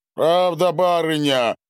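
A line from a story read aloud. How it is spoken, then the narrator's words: Booming peasant voice. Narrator (Russian): прогудел мужик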